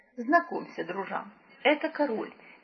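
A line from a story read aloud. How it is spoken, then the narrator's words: Somewhat uncertain. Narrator (Russian): несколько неуверенно проговорил Кешка, стараясь оборвать странную паузу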